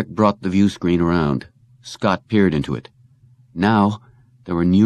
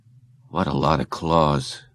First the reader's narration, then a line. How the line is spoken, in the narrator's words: Scott murmured